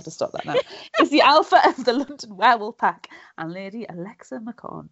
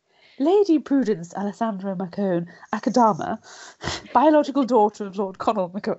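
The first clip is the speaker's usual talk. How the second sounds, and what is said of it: Put-on polished phone voice. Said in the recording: “I need to put my phone voice on now.”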